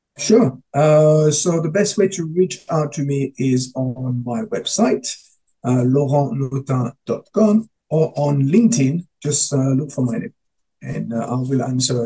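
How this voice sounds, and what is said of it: Beautiful foreign accent. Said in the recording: “Your accent is beautiful. Probably people can't spell your accent”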